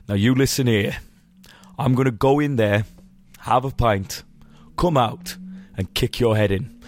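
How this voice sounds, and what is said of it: Steady Birmingham-accented Thomas Shelby impression. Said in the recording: “He does a very good Birmingham accent ... he talks like this. I'm Thomas Shelby, right. And he's got a real steady voice.”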